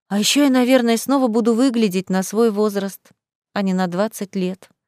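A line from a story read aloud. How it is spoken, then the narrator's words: Sighing. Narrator (Russian): вздохнула Лиза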